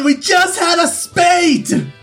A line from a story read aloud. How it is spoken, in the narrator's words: I yelled